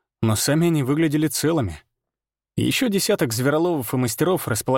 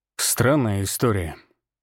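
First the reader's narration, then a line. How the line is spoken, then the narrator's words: Slow. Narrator (Russian): медленно произнес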